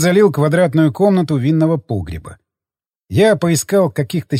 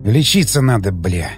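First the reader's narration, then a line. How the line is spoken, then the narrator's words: Frightened mutter. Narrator (Russian): пробормотал я, чувствуя, как со страху пробивает потом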